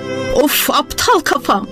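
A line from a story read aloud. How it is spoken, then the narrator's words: Cried out. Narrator (Turkish): diye haykırdı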